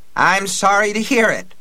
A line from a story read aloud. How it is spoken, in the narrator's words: cried